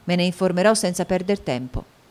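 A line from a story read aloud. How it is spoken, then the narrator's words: Plain. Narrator (Italian): disse Nicola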